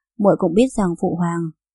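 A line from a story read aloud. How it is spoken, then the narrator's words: Low-voiced warning. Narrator (Vietnamese): Lâm Khuynh đã hạ giọng nhắc nhở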